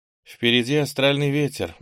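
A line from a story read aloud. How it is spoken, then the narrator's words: Gloomy. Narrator (Russian): мрачно сказала Ира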